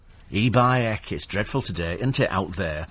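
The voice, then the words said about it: Put-on regional British accent. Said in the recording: “regional accents are thriving against the odds ... All these different accents ... regional accents people love”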